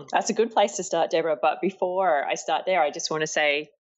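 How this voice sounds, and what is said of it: Australian accent. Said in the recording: “I love your accent because it's the Aussie accent”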